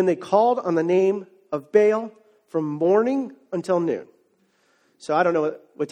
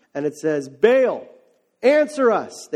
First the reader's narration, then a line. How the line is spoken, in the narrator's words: they shouted